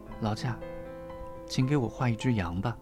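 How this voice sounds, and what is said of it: Small, faint voice. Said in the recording (Chinese): “那个细小的声音说”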